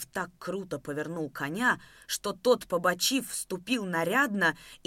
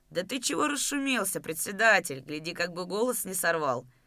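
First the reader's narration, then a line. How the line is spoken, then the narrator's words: Sarcastic, older man. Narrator (Russian): Язвительно ответил Устин Рыкалин, пожилой приземистый казак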